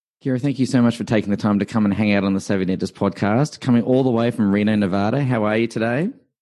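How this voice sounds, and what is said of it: Speaks with a noticeable accent. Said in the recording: “I just wish I had as great of an accent as you do”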